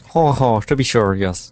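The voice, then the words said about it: Attempted Irish accent. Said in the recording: “I can't do an Irish accent.”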